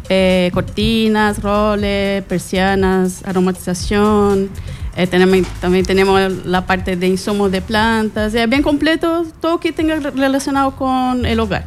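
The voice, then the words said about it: Brazilian accent in Spanish. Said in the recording (Spanish): “¿Eres brasileña? ... Ah, por eso el acento.”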